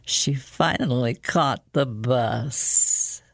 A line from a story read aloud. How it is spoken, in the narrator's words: said in a soft, almost amused voice